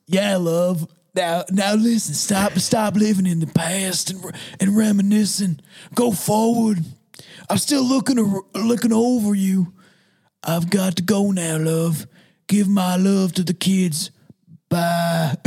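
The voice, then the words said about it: Old grandfather character voice. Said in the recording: “How can I do a grandpa voice?”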